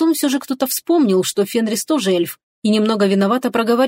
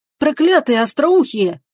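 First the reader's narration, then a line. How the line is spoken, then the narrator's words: Indignant shout. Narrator (Russian): крикнул кто-то возмущенно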